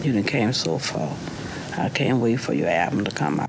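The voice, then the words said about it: Louisiana accent, drops the L. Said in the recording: “She doesn't say the L ... I love a good accent. So this is Louisiana, right?”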